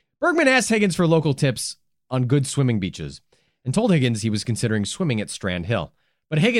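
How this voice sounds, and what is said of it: Usual voice. Nothing is said of it.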